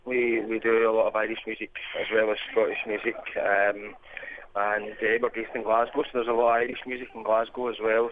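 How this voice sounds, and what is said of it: Scottish accent. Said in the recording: “the accent should give you away for sure ... Scottish dialect more complicated to hear”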